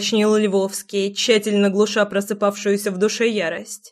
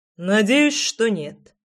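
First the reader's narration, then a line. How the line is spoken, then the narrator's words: Deep bass voice. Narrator (Russian): пробасил Фрол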